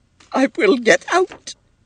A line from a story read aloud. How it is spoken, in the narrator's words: she sobbed